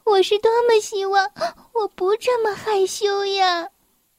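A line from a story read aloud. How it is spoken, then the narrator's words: Sobbing tearfully. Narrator (Chinese): 一滴眼泪顺着她的脸颊流了下来，她抽泣着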